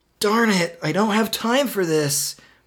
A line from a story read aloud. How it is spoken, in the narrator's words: Marty whined